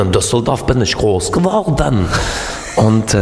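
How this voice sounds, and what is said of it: Usual voice. Nothing is said of it.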